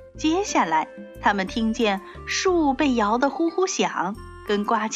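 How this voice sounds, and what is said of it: Usual voice. Nothing is said of it.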